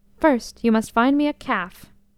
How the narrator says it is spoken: Raising her voice until it was borne to the farthest extremity of the marketplace, Aisha said briefly

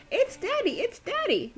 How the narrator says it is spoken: Daisy squealed

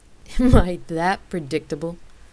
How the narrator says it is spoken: She asked with a chuckle

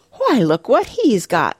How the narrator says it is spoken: she exclaimed

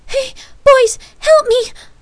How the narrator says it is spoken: Lark pleaded desperately

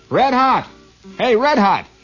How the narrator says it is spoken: he shouted

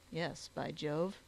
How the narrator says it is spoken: chuckled Summers

